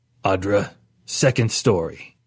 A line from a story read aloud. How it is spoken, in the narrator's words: Perlman cleared his throat, a rumble like rocks falling, and said